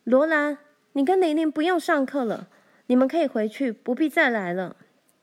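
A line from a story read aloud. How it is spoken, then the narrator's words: Loud. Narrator (Chinese): 怀德小姐大声说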